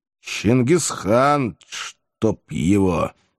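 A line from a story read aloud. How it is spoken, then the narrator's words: Grumbling. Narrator (Russian): буркнул я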